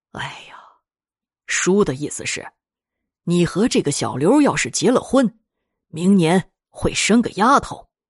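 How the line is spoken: Sighing, explaining. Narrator (Chinese): 老于叹了口气，解释道

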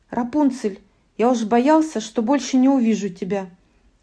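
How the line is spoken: Exclaiming. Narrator (Russian): воскликнул он

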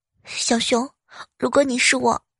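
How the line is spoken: Murmured question. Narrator (Chinese): 我喃喃的问他

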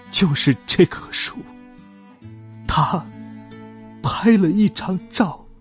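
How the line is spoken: Tearful voice. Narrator (Chinese): 他带着哭腔说

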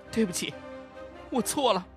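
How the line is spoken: Choked, sobbing apology. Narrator (Chinese): 吴婷咬着牙，哽咽着说了声

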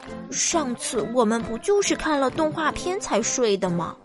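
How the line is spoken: Muttering. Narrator (Chinese): 可马克嘀咕

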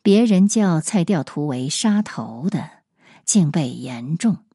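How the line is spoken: Sighing. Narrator (Chinese): 陈存仁叹道

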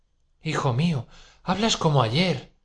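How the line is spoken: Frightened exclamation. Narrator (Spanish): exclamó asustada Pulqueria Alexandrovna

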